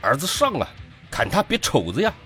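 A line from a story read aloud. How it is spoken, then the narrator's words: Roared. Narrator (Chinese): 父亲吼了起来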